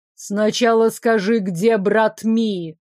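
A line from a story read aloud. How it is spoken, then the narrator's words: Demanding. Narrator (Russian): Потребовал Арчи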